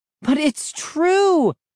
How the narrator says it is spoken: I cried

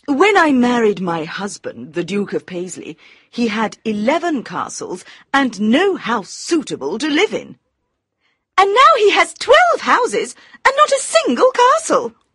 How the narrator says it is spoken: cried Lady Windermere

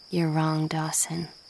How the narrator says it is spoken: Jen said quietly

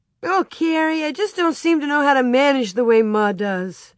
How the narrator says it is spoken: she almost wailed

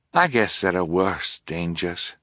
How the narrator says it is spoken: Fiona said quietly

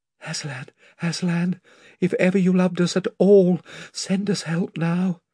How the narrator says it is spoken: Lucy leant her head on the edge of the fighting top and whispered

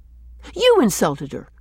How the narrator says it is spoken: she answered sharply

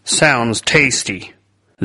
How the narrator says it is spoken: commented dryly

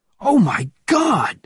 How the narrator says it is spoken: he cried

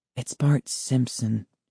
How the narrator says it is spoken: she muttered

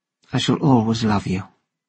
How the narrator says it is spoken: said softly

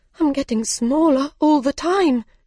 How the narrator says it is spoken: cried

